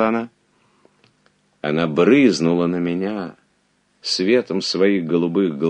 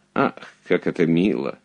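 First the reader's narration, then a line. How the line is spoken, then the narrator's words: Affectedly casual duchess. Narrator (Russian): нарочито небрежным тоном проговорила герцогиня Германская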